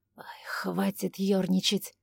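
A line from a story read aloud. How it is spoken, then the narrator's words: Weary. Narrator (Russian): Устало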